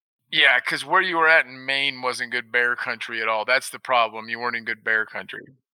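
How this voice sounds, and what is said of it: Sarcastic delivery. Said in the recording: “That was sarcasm, folks.”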